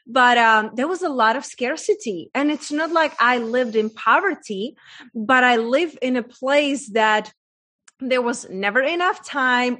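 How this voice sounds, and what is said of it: Czech accent in English. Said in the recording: “I was raised in a very small town in Czech Republic, hence that's my accent from”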